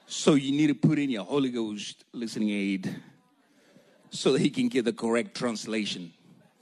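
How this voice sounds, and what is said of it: Thick accent, tired voice. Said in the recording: “I'm extra tired, so my accent is extra thick this morning”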